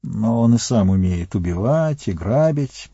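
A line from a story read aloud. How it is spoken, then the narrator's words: Grumbling. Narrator (Russian): проворчал Сэм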